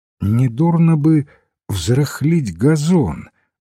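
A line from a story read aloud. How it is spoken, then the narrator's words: Sleepy mumble. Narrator (Russian): сонно пробормотал достопочтенный патер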